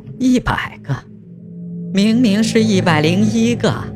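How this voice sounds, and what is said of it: Shrill piercing old man voice. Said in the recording (Chinese): “用尖声锐耳的声音说道”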